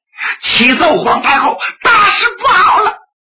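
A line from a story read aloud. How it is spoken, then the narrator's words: Panicked shout. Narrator (Chinese): 双喜慌慌张张，进屋就喊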